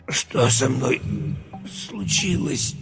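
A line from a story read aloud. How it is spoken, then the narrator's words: Strained wheeze. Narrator (Russian): Через силу прохрипел Юра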